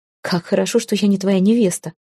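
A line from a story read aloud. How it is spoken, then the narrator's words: Laughing. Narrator (Russian): Не выдержав, я рассмеялась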